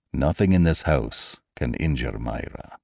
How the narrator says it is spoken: he replied quietly

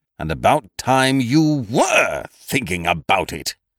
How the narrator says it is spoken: he boomed sternly

